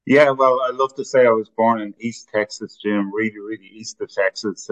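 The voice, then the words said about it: Irish accent. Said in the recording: “is not from here. His accent originates from a different part of the world.”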